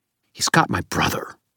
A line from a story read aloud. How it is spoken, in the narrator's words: Lara snarled